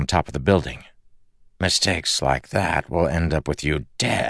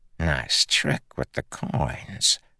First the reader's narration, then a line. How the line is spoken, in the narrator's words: the man murmured